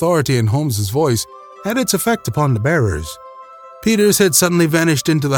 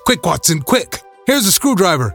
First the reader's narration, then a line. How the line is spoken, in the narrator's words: shouted